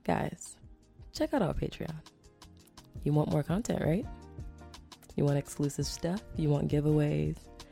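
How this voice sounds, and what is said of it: Soft whispery ASMR voice. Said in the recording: “super ASMR voice”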